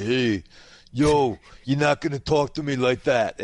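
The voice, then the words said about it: Weird put-on imitation of another's accent. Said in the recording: “this weird Sly Stallone accent”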